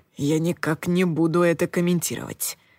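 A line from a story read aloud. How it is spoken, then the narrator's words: Whispering in ear. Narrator (Russian): прошептал Коул мне на ухо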